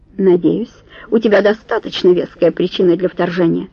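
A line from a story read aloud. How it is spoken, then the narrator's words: Sharp, curt. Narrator (Russian): резко бросил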